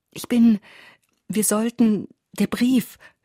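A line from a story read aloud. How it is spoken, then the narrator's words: Stammering woman. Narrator (German): stotterte sie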